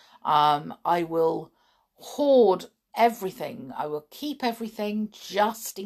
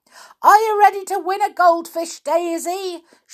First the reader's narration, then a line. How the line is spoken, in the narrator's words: shouted Grampy